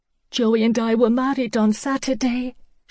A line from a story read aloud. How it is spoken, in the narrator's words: she choked